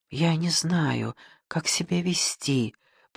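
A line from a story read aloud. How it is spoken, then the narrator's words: Whisper. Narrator (Russian): прошептала Лидия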